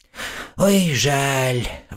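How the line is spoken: Sighing. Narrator (Russian): вздохнул Родька

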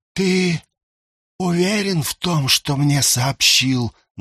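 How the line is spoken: Restrained angry hiss. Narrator (Russian): Наг, едва сдерживая злость, прошипел

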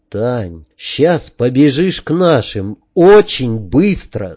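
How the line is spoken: Plain. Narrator (Russian): сказал я

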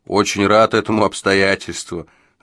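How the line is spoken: Laughing. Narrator (Russian): засмеялся Джо

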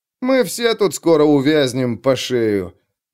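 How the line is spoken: Gloomy snort. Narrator (Russian): мрачно хмыкнул Хлыст

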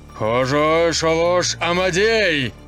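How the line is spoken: Loud yell. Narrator (Russian): повысив голос, заорал

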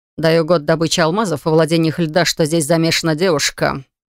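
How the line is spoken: Smirking snort. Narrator (Russian): хмыкнул Лайт

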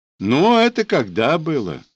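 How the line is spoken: Mocking whistle. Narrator (Russian): насмешливо присвистнул он

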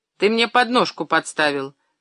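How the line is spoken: Grumbling. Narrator (Russian): пробурчал Мишка

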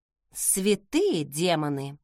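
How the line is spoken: Muttered. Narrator (Russian): пробормотала я

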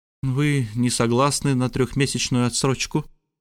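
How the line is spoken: Gloomy question. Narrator (Russian): мрачно спросила леди Лор

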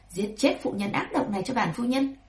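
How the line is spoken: Cold command. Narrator (Vietnamese): Lê Thị cười đủ rồi, lau nước mắt trên khóe mắt, lạnh lùng nói

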